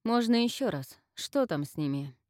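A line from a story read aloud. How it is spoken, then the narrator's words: Irritated sigh. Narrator (Russian): Инна раздраженно вздохнула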